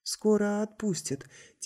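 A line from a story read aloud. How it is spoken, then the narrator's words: Quiet. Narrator (Russian): тихо сказал Август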